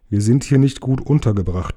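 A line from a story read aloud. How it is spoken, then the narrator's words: Plain. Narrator (German): sagte Thorin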